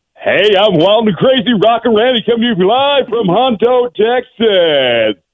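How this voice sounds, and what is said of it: Announcer-style radio voice. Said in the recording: “Are you in broadcasting, sir? You've got that radio voice.”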